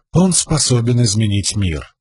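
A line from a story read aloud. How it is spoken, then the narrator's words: Plain. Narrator (Russian): сказала Эшиной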